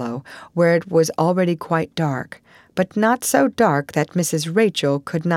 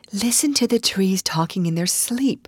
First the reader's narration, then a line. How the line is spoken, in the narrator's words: she whispered